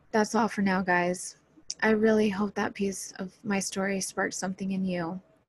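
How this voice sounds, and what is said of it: Tired, worn-out voice. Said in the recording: “Sorry about my voice. I've had a long day. I'm actually very tired.”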